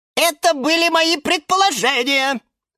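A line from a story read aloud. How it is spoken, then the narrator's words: Shrill squeal. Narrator (Russian): взвизгнул Лимон Филимон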